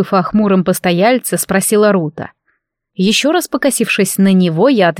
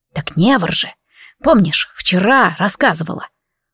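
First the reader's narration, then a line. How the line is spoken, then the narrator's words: Quiet reply. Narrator (Russian): Рута так же тихо ответила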